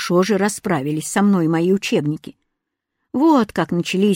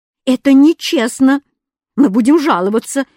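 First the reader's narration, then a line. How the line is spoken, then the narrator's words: Wailing yell. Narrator (Russian): вопил Кузя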